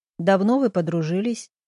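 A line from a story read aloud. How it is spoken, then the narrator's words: Plain. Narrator (Russian): спросил Макар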